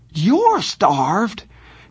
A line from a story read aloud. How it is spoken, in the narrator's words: Johnny was so indignant he nearly squeaked